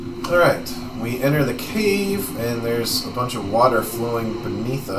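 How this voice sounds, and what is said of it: Usual voice. Nothing is said of it.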